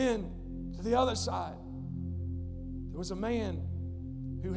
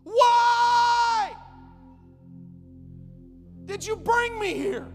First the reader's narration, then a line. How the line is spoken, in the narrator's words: she yells out to him